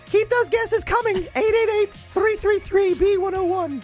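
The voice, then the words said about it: Imitates another person's voice. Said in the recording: “I'm going to play the role ... That was terrible ... my best Kathy impression ... I don't sound like either of those people”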